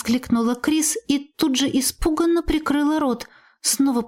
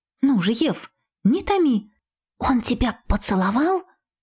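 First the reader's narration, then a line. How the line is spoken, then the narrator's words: Whispered. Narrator (Russian): зашептала она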